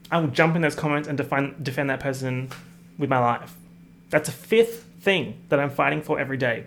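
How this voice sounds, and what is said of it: Australian accent. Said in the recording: “my Australian accent.”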